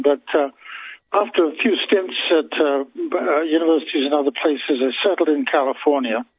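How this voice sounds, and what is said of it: British English accent. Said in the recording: “they don't know you from Adam hardly, except for your accent ... I born in London, England”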